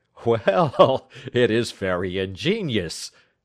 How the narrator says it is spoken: said, laughing

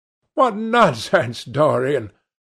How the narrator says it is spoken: laughed his companion

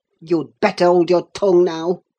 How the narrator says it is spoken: he answered fiercely

